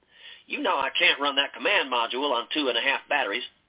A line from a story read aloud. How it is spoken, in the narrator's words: Aaron said, speaking to him in his most winning Oklahoma drawl